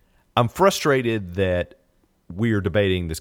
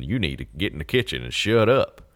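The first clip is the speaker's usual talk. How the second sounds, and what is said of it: Put-on Southern accent. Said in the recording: “I do a Southern accent when I talk about stupid people”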